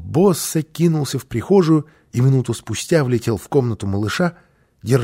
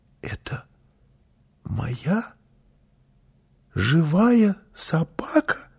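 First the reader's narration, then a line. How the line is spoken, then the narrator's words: Child's whisper. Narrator (Russian): прошептал малыш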